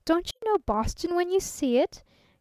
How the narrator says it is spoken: he cried a trifle testily

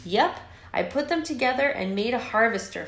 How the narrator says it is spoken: Flik exclaimed

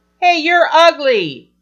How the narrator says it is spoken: she would shout

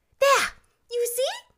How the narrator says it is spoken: cried Mary in ecstasy

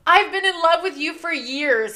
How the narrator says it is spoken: he exclaimed

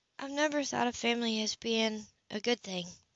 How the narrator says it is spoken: she mumbled

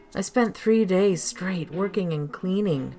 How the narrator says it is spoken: Jenny sighed

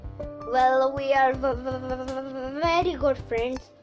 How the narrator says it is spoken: I stuttered

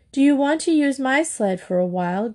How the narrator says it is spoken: Gretchen asked Cathy kindly

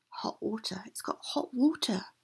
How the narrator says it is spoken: whispered the woman

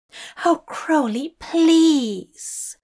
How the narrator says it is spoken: Azir Raphael begged

